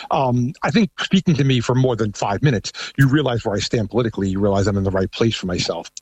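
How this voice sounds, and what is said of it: Thick New York accent. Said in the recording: “I have a very thick New York accent.”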